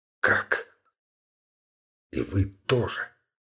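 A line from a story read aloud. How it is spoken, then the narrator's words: Quiet, terrified. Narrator (Russian): Тихо, с выражением безумного страха в глазах, произнес, наконец, Назанский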